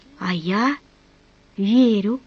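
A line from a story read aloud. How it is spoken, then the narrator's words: Involuntary whisper. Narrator (Russian): Помимо своей воли она прошептала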